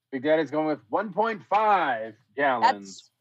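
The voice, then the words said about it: Game show announcer voice. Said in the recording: “You don't have to have the announcer voice on.”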